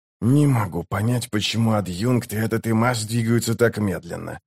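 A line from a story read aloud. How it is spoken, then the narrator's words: Repeated weary mutter. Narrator (Russian): пробормотал Ток, уже, наверное, в 12-й раз с утра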